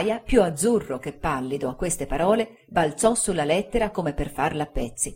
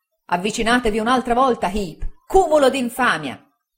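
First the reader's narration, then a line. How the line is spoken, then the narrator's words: Shouting. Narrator (Italian): gridò il signor Micawber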